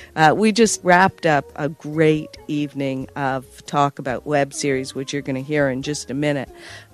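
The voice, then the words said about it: Hoarse, strained voice. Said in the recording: “I am losing my voice tonight.”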